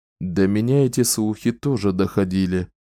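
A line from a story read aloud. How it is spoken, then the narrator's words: Sighing. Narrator (Russian): вздохнул Далтон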